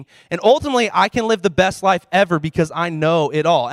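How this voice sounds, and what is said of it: Sarcastic delivery. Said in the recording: “And I'm being sarcastic,”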